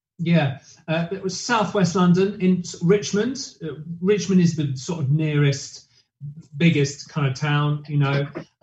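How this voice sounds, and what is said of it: English accent. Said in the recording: “You were raised in England. I can hear the accents.”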